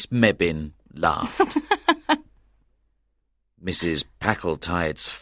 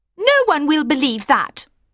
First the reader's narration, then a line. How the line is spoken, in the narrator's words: she said quickly